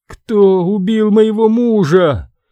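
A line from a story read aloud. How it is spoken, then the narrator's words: Sobbing. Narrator (Russian): рыдала Титания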